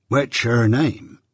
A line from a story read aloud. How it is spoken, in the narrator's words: said Joe gravely